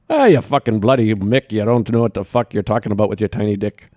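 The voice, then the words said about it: Put-on Irish accent, slightly Scottish. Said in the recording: “maybe an Irish occasionally ... That's pretty good. I heard a little Scottish in there.”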